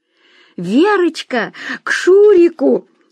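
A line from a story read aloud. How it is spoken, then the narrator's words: Cheered-up shout. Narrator (Russian): крикнула Ирина Владимировна, приободрившаяся с приходом новой гостьи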